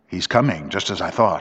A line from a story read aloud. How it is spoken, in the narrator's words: I muttered